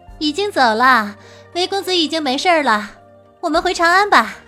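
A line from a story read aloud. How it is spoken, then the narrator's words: Smiling. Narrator (Chinese): 白姬笑道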